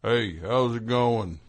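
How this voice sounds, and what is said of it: Impression of a trucker calling in. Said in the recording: “That's a good impression.”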